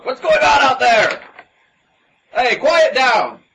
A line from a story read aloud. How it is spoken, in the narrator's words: a shout